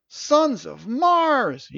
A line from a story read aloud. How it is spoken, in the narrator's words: cried